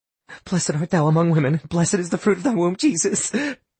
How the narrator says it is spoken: Astrid sobbed

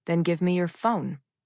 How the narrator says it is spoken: I said calmly

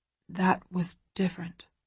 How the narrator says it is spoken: he whispers

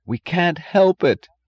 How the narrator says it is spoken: cried Philip

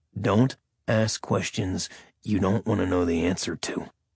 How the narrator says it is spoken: Caleb growled

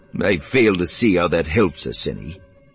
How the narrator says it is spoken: Flim said icily

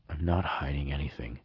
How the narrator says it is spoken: I answered hoarsely

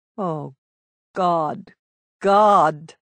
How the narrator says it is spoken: Orestes groaned

